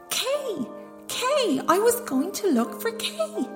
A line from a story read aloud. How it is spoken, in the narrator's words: she cried, and then she began to weep